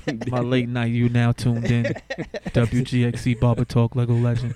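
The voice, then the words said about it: Late-night radio DJ voice. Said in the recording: “That's my that's my on the radio voice.”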